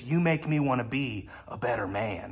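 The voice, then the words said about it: Poor Jack Nicholson impression. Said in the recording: “that's a terrible impression, but that's my Jack Nicholson impression.”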